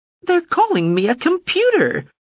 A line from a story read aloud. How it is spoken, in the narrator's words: the drone wailed